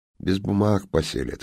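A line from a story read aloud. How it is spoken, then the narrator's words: Snort. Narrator (Russian): хмыкнул Ясарев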